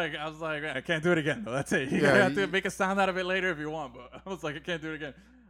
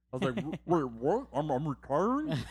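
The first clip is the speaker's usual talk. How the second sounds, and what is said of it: Imitates another person's voice. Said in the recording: “that is a great fucking Andrew Luck impression... That was good.”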